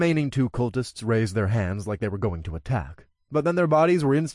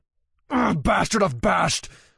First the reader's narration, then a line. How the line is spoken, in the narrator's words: a cultist snarled as he ran toward me